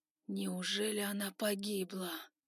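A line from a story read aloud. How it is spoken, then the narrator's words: Regretful whisper. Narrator (Russian): прошептал, жалея в душе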